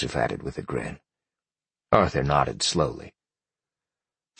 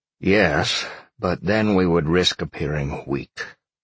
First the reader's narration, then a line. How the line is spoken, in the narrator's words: Arthur sighed